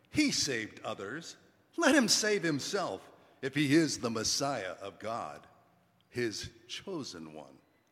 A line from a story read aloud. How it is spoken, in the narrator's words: the leaders scoffed at them, saying